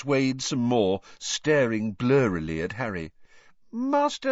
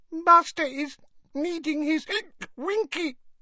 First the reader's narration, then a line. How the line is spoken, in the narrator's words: whimpered the elf